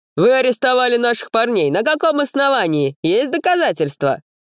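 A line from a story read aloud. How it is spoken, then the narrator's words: Shouted. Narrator (Russian): крикнул кто-то другой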